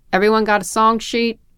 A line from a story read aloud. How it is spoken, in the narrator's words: His voice was deeper raised like that